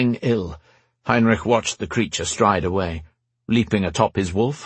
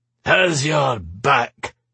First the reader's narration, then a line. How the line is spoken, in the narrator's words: the thing snarled